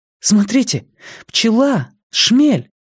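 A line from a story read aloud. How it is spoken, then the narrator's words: Sudden cry. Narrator (Russian): вскрикнула Вера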